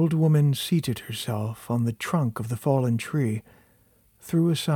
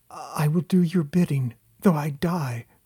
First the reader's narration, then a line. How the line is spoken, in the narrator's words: replied the lady desperately